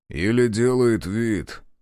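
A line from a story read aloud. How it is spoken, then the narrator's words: Muttered. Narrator (Russian): пробурчал Захар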